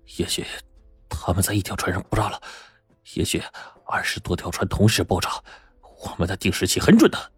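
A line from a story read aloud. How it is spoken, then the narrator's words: Frightened muttering. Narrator (Chinese): 罗永先的脸顿时煞白呀，嘴里还在嘀咕着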